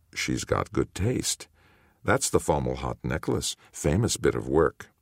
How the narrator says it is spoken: Ketho, at his shoulder, murmured

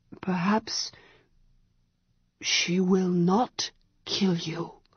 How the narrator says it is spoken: he whispered

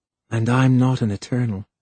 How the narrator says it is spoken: she murmured

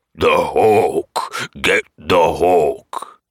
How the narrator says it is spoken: The troll bellowed in a vast stony voice

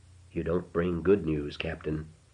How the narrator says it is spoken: said softly, with indifference

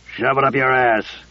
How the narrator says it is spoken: Casey growled

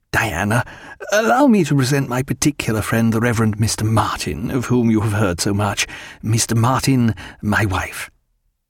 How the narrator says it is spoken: Stephen gave his creaking laugh of satisfaction and said

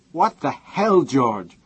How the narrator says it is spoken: Heather's voice saying furiously

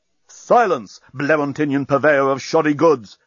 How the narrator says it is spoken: shouted Bolfas

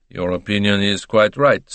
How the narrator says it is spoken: said dryly

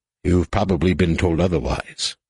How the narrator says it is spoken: Han said

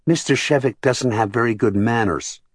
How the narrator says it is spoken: the younger boy said in his small, clear voice

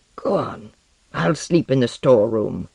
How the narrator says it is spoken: Lenoir growled

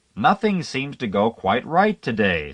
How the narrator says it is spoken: said a woman farther back in the car in a loud, quivering voice

